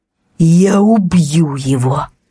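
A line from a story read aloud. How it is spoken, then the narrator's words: Through clenched teeth. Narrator (Russian): Процедил Зимний сквозь стиснутые зубы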